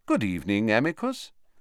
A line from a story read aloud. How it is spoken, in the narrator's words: said Dumbledore calmly, as though welcoming the man to a tea party